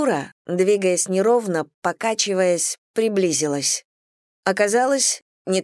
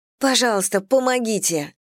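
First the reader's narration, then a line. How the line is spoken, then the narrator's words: Pleading. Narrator (Russian): взмолилась я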